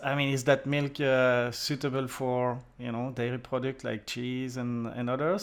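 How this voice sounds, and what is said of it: French accent. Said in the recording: “you hear my French accent and I'm from Belgium”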